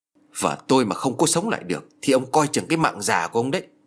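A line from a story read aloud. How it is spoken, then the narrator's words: Menacing, gritted voice. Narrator (Vietnamese): Gã phu ngựa gằn giọng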